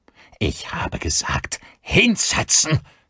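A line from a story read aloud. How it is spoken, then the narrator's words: Hiss. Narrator (German): zischte Gavin Daly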